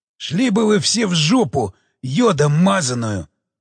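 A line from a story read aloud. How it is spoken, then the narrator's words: Inhuman roar. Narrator (Russian): нечеловеческим голосом зарычал Обухов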